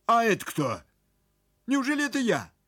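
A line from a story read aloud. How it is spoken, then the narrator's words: Stern question. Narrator (Russian): строго спросил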